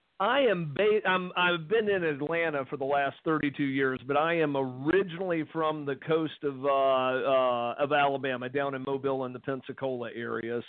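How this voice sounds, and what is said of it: Southern US accent, Alabama-Atlanta mix. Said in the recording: “you've got a nice accent ... it's kind of a hybrid accent between there and Atlanta”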